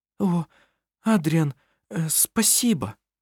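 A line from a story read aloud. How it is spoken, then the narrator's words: Stammering. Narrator (Russian): Заикаясь, проговорила она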